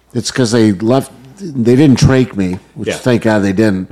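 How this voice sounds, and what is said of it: Somewhat damaged, messed-up voice. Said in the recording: “why my voice is messed up, it is a little messed up... they damaged my vocal cords”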